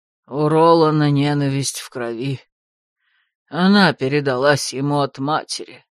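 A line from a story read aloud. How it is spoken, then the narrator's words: Sighing. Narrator (Russian): вздохнул Лэр Хотай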